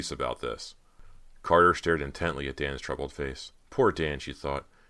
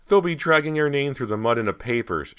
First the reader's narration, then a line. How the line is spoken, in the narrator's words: she cried tearfully